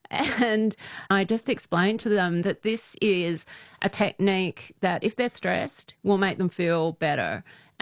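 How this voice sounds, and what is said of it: Speaks with a noticeable accent. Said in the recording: “They're always fascinated by my accent.”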